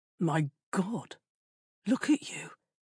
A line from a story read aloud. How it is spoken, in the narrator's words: breathed